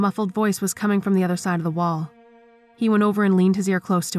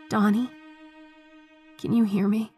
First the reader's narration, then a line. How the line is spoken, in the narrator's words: the voice whispered